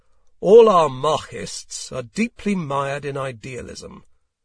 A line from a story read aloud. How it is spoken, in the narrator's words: he thundered